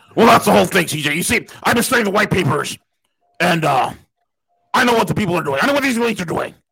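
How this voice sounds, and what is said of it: Imitates another person's voice. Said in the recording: “my Alex Jones impersonation ... it's kind of a hybrid between Hulk Hogan and”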